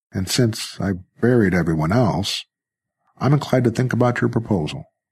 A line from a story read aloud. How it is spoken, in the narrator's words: Jerry said dryly